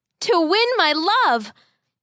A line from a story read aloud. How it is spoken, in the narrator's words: the boy shouted back